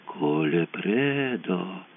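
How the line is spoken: Drawl. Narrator (Russian): протянула Кончита

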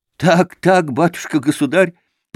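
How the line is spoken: Stammering with fear and joy. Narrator (Russian): подтвердил Михеич, заикаясь от страха и радости

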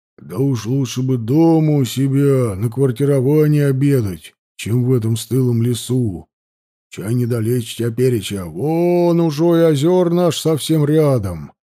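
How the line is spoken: Deep bass voice. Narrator (Russian): пробасил Савва

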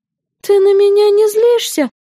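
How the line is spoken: Timid question. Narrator (Russian): робко спросила Юна

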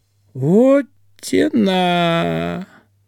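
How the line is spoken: Drawn out. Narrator (Russian): Протянул Ведищев

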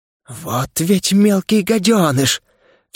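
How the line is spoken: Angry exclamation. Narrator (Russian): в сердцах воскликнула Никта

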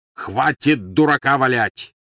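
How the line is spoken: Barked. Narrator (Russian): рявкнул Грюм

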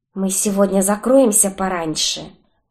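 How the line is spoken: Announcing. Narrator (Russian): объявила она

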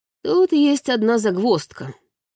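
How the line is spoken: Snorting chuckle. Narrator (Russian): хмыкнул

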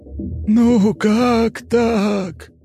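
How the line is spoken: Near-sobbing whine. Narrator (Russian): чуть ли не рыдая проскулил призрак

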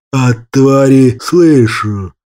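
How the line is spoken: Displeased growl in head. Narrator (Russian): Недовольно рыкнул в голове магистра Бессмертный

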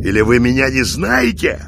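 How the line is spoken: Angry bark. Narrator (Russian): разозлившись, рявкнул Михаил

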